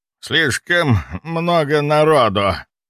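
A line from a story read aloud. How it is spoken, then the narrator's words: Hoarse, pained rasp. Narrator (Russian): прохрипел граф, морщась от боли в горле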